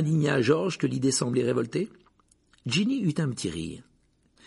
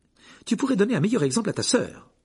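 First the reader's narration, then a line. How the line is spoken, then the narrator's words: Curt reply. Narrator (French): répliqua sèchement Madame Wesley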